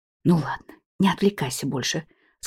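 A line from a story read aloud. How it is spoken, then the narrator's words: Close whisper. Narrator (Russian): склонившись к пареньку, шепнула я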